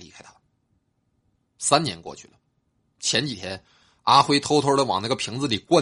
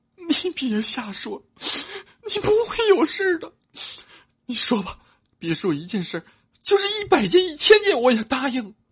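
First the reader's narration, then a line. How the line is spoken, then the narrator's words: Crying. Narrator (Chinese): 妻子哭着说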